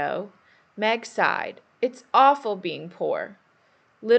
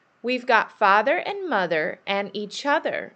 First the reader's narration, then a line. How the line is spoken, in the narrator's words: Beth said happily